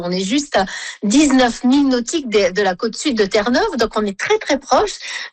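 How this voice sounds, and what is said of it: Saint-Pierre-et-Miquelon French accent. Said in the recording (French): “Vous entendez mon accent, qui est assez différent du vôtre, et c'est celui qui est parlé ici dans l'archipel.”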